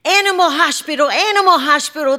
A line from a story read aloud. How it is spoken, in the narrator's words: the children would shout